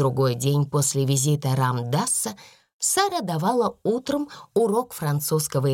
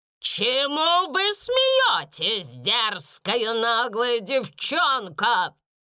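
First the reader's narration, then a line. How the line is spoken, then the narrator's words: Shouted. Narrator (Russian): крикнула мисс Минчин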